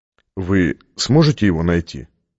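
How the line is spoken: Plain. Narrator (Russian): спросил Стратмар

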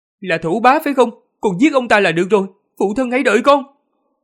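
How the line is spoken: Loud speech. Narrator (Vietnamese): Tần Mục lớn tiếng nói

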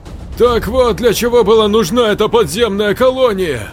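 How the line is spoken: Yelling. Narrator (Russian): заорал Бакстер

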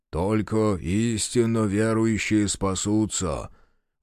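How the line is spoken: Muffled, hollow. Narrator (Russian): глухо добавил Мамыкин

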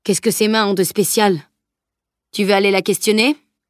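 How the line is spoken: Curt retort. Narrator (French): répliqua sèchement Edwin

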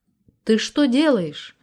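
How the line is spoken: Frightened question. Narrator (Russian): испуганно спросил Анатолий, узнав о Маришиных хлопотах

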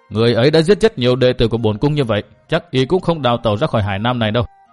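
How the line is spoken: Loud shout. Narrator (Vietnamese): Bích Lạc Chân Quân liền quát lớn

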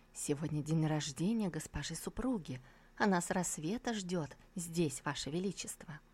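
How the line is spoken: Eunuch whispering in ear. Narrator (Russian): Евнух Вэйси шепнул господину на ухо

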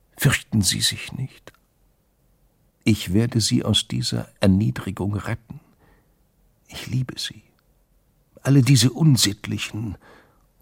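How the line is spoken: Louder whisper. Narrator (German): sein Flüstern lauter geworden

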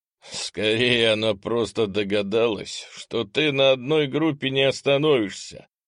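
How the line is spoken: Chuckling. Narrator (Russian): хохотнул гент Ол Рамсвин

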